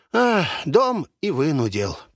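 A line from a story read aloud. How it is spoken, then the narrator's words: Old man's sad sigh. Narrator (Russian): печально вздохнул старик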